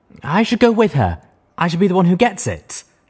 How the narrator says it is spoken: the brown unicorn whined

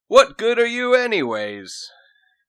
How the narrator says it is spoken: Toby shouted

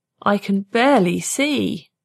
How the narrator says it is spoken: he moaned

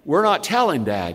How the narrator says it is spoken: said Dave

